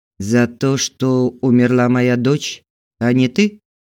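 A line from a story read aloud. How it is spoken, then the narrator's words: Hollow muffled voice. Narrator (Russian): глухо сказала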